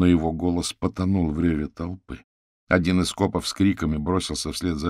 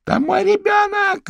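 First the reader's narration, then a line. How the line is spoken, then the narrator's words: Hysterical shriek. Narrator (Russian): истошно визжала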